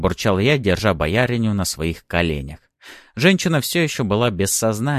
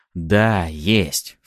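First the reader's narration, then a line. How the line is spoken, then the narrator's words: Snapping back in kind. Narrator (Russian): в тон ему огрызнулся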